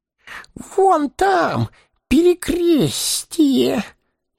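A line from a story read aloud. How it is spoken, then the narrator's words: Wheezing. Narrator (Russian): сипел Горлум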